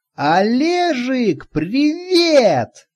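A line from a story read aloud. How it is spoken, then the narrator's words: Yelling over the phone. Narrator (Russian): заорала трубка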